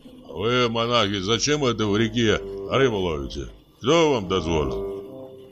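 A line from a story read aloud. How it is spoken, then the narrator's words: Deep bass voice. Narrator (Russian): проговорил густым басом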